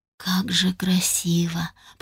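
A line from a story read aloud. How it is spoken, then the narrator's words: Whisper. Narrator (Russian): прошептала я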